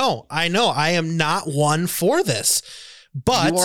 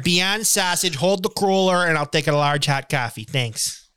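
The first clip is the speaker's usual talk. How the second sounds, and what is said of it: Put-on Chicago accent. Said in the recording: “a great Chicago accent, a phrase too ... Hits all those sounds hard.”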